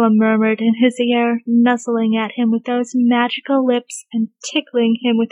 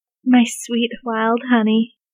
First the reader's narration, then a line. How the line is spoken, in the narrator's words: Bradley murmured in return